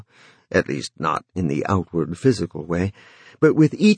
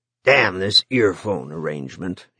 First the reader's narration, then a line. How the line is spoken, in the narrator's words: grumbled